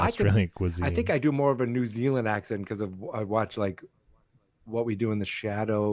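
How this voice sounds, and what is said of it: Usual voice. Nothing is said of it.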